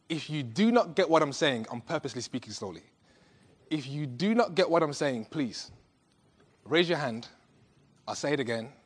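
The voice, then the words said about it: Strange accent. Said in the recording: “I've got a strange accent”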